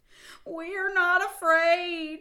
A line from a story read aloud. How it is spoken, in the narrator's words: screamed Frog and Toad at the same time